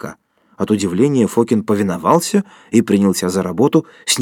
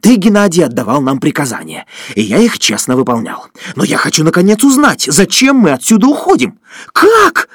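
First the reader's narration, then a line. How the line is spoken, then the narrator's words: Sudden falsetto yell. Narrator (Russian): завопил он вдруг фальцетом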